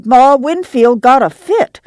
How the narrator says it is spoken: she cried

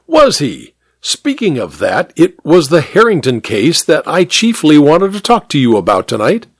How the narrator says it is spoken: Hare exclaimed

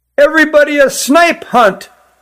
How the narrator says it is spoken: yelled one

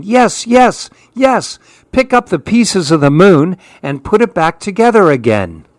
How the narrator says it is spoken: All the other monkeys started yelling

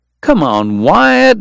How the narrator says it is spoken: Doc pleaded

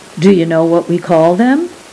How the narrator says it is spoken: asked

